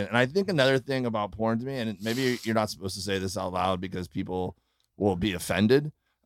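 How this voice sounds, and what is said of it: Midwestern American accent. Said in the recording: “you're getting an accent... You're getting a Midwest accent... You have definitely picked up a Midwest accent.”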